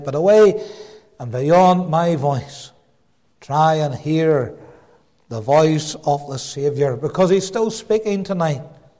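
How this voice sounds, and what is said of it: Belfast accent, loud preaching voice. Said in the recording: “My Belfast accent shouting at you a little bit tonight”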